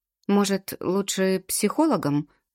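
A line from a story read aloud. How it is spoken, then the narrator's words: Timid suggestion. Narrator (Russian): предлагаю робко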